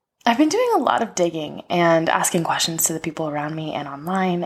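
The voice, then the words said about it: Voice sounds different, sore throat. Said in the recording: “excuse my voice if it sounds a little bit different. The hot cold that's been happening lately is getting to my throat”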